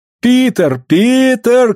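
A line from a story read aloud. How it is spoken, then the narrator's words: Shouting. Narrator (Russian): кричала Клариса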